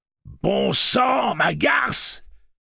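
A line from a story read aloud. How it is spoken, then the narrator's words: Shouting. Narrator (French): criait-il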